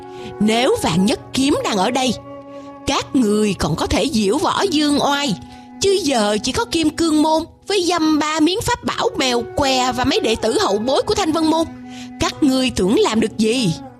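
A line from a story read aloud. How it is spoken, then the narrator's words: Crowd laughing loudly. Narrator (Vietnamese): Toàn thể ma giáo cười lớn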